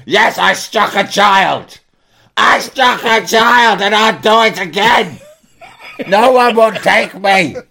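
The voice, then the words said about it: Shouting. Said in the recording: “And I'm shouting”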